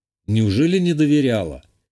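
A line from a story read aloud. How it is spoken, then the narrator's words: Snorting. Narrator (Russian): хмыкнул я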